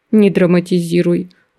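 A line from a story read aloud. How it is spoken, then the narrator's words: Weary request. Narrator (Russian): устало попросил мастер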